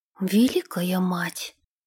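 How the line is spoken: Whisper. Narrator (Russian): прошептала Генриетта

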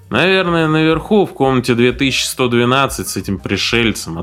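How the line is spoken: Bored voice. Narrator (Russian): ответил охранник скучающим голосом, как будто инопланетяне появлялись тут каждый день

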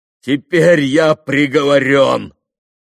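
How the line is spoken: Shouting. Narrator (Russian): прокричал

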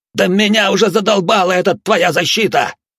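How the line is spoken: Hysterical yell. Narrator (Russian): С нотками истерики заорал Навар

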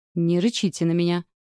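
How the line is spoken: Snorted. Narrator (Russian): фыркнула

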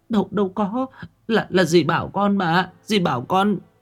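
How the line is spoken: Crying, terrified girl. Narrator (Vietnamese): Con bé Thảo vừa khóc lóc vừa kinh hãi

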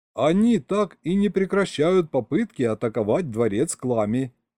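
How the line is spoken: Giggling. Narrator (Russian): хихикнул Серега

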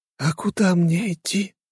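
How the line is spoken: Hoarse, old woman's voice. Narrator (Russian): прохрипела то ли женщина, то ли старуха

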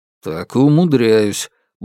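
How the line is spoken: Grunted. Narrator (Russian): буркнул Алексей

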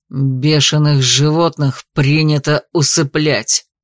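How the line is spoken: Menacing growl. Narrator (Russian): прорычал Алластер

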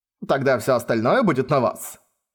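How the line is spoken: Happy, lighthearted tone. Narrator (Russian): Войс счастливо улыбнулся, легкомысленным тоном сказал

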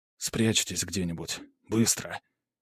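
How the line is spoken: Whispered. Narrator (Russian): шепотом произнес я

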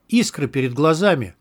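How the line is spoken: Exclamation. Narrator (Russian): воскликнул внутренность

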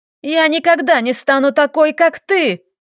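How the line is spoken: Defiant shout. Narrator (Russian): выкрикнула Ника

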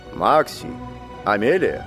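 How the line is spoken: Serious calling voice. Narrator (Russian): позвал Тата серьезным голосом

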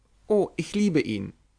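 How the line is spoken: Stammering. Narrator (German): stammelte Harriet

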